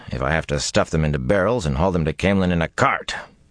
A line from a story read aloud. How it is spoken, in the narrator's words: he muttered under his breath